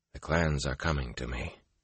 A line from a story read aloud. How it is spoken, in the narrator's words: Rand said flatly